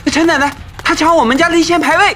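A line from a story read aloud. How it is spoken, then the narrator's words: Shouting. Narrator (Chinese): 于峰冲着陈婆就喊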